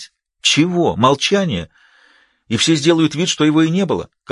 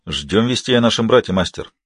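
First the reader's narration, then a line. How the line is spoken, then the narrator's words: Even tone. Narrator (Russian): ровным тоном ответил Вайолин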